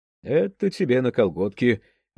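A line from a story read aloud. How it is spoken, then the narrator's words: Cheerful. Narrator (Russian): весело сказал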